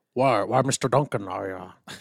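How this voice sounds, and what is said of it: Imitates another person's voice, badly. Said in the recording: “I do a terrible John Huston accent.”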